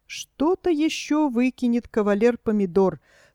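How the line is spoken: Sad, worried question. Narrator (Russian): спрашивал профессор Груша, печально и озабоченно

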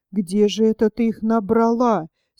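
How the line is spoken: Angry question. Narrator (Russian): сердито спросила Алена

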